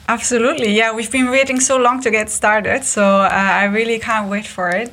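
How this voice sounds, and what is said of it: German accent. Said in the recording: “I'm originally German, uh, as you will probably hear from our accents.”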